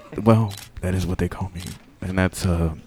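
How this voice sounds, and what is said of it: Very quiet, whispery speech. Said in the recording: “you talking all quiet ... Why are you whispering? ... this is as loud as I can possibly speak”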